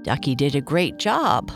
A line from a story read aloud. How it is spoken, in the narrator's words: Papa Bear said with a laugh